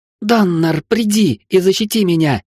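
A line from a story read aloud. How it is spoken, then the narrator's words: Shouted. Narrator (Russian): крикнула Вилли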